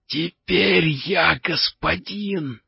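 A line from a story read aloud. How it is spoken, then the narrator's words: Hoarse little head. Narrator (Russian): прохрипела маленькая головка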